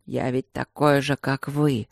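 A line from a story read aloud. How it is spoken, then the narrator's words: Hoarse wheeze. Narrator (Russian): Просипел Люк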